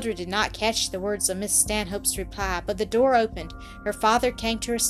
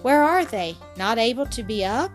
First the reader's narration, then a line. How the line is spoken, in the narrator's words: His tone was anxious and concerned